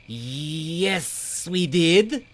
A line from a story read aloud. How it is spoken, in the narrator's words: Snabla spat